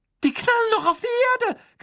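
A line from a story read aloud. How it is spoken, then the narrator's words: Shrieking. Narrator (German): kreischte Hermine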